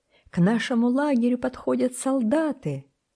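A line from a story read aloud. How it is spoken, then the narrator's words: Joyful shout. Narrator (Russian): Он радостно закричал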